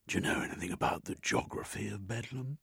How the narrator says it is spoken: He whispered

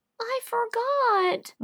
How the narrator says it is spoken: whimpered Davy

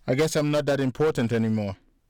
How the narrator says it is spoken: Mike said, with a knife-edged smile

